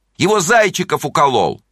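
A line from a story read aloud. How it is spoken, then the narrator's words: Group shouting. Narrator (Russian): Они кричали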